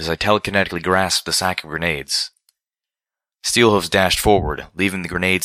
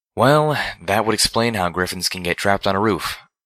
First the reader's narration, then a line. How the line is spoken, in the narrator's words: said flatly